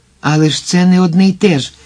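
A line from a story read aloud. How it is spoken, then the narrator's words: Energetic exclamation. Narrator (Ukrainian): енергійно вигукнув Вільям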